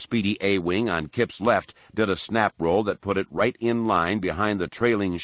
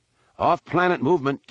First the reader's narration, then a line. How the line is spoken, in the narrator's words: came Miko's call